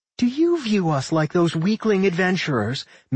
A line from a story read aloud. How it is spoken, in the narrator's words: Milda giggled shrilly